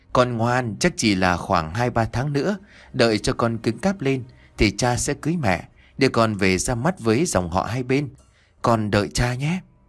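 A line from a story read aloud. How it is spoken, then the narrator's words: Smiling tender whisper. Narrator (Vietnamese): Liên mỉm cười thì thầm với nó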